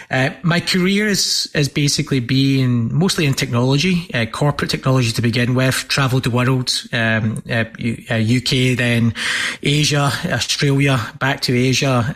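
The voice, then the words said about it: Scottish accent. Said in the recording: “is a Scottish accent. And that accent never goes away”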